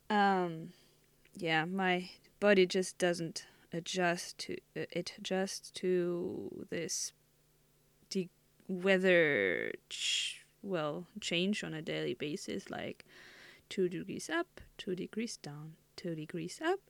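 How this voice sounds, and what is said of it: Voice less full than usual. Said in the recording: “you might hear that that my voice is like, not their bloomy sound you usually get”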